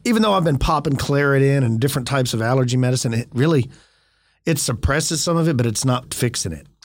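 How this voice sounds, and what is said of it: Congested, slightly odd head-cold voice. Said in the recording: “coughing and wheezing with my wheezing friend ... my voice sounds a little bit weird ... my sinuses have been jacked up all week. I feel like I got this head cold that I can't shake.”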